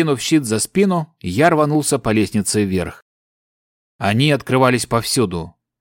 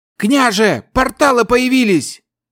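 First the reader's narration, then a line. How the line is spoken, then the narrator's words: Warrior shouting from wall. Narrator (Russian): крикнул со стены кто-то из воинов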